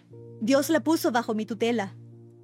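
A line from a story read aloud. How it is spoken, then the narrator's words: Raised voice, nearly shouting. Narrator (Spanish): repitió Hester Prynne, levantando la voz de tal forma que casi gritaba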